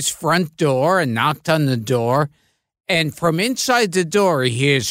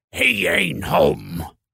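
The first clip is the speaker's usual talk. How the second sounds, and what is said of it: Imitates another person's voice. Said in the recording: “That's a very good impression.”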